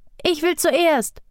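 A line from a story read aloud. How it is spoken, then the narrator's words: Calling out. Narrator (German): rief Aduma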